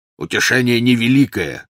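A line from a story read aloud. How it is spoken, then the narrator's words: Growl. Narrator (Russian): прорычал Кингсли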